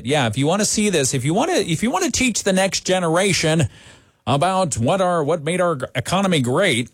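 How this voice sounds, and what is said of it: Grumpy old man voice. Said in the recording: “my get off my porch, get off my lawn imitation”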